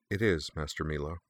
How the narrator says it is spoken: reply, quietly and respectfully

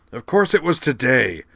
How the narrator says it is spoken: Jacron shouted

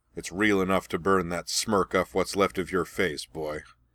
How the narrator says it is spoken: Ozai snarled

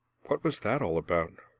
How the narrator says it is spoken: Merwin asked quietly

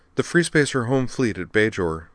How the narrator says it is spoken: said Mia

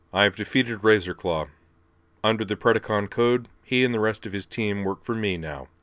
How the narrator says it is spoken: Thundercracker declared flatly

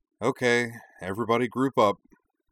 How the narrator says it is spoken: Korra gave a long, suffering sigh, then took the camera from her and said

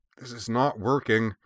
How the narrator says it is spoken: Shirley grunted

